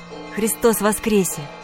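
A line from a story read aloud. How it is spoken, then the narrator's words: Flustered shy whisper. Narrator (Russian): Сам не свой, весь зардевшись, опустив глаза, я прошептал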